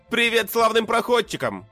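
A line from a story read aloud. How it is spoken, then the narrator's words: Distant shout. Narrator (Russian): крикнул я издали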